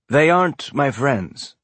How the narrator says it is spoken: he said, keeping his tone of voice light

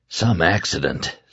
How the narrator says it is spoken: Stu said, his voice nearly a whisper

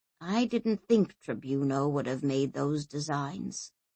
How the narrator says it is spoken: he said softly

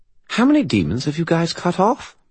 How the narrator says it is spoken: Bob asked brightly

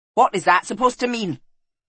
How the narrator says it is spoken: He snapped

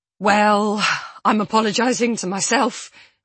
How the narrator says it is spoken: I say, blurting out the words to break the tension

